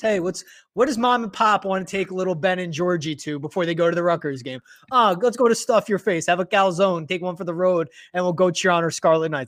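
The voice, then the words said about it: Regional accent coming through. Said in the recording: “the accent came out a little bit there”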